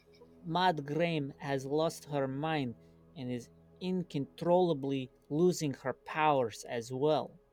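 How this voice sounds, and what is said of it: Thick, hard-to-understand exaggerated accent. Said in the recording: “it's just extremely hard to understand your accent. It's kind of ridiculous.”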